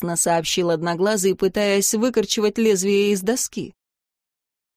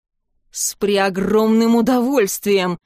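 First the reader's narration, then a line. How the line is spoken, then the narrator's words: Bear-like growl from under bed. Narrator (Russian): прорычал убийца из-под кровати, как медведь из заснеженной берлоги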